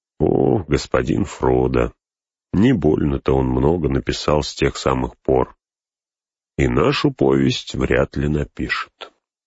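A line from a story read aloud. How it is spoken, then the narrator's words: Quiet. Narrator (Russian): Сэм тихо сказал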